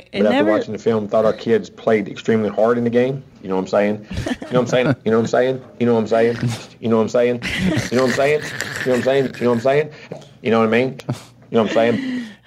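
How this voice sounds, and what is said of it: West Virginia drawl. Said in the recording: “He's from West Virginia. That's that drawl.”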